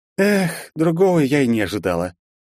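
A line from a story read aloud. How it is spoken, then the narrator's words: Mock sigh, mouth full. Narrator (Russian): слегка наигранно вздохнула Вета, уже уплетая за обе щеки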